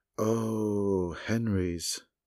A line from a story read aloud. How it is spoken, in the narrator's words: said Indigo dreamily